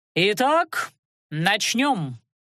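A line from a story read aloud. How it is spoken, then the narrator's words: Solemn proclamation. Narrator (Russian): торжественно возгласил архимаг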